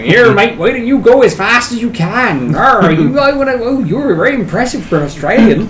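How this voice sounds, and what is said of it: Unconvincing put-on Cornish accent. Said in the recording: “I was like speaking with my Cornish accent ... That's the least convincing Cornish accent I've ever heard.”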